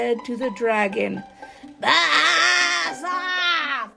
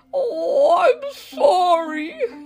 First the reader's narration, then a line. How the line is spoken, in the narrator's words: he spluttered